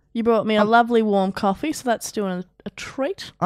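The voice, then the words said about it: Croaky, sick-sounding voice. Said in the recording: “I'm a little under the weather. ... I've got a funny voice. ... I've got a bit of a Kermit vibe”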